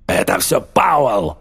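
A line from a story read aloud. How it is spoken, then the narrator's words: Shouting. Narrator (Russian): крикнул Рич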